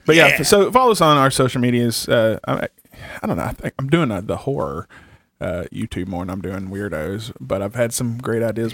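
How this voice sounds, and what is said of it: Southern accent. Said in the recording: “My southern accent gets in my way.”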